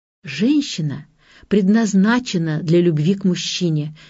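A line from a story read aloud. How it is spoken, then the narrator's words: Plain. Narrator (Russian): сказала Ася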